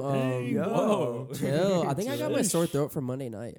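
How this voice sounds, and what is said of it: Slightly hoarse, sore-throated voice. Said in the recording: “I have a little sore throat,”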